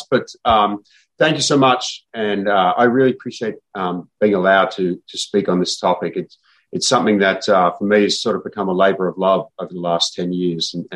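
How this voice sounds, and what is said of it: Australian accent. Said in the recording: “This is not an Oxnard accent. I actually grew up in Melbourne, Australia.”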